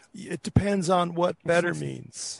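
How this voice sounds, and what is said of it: Impression of Bill Clinton. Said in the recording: “Was that a Clinton reference? ... It's the only president Clinton I can do. ... impressions”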